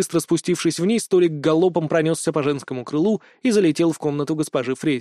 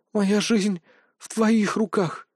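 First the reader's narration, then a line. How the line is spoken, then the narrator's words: Breathy exhale. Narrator (Russian): выдохнула Алина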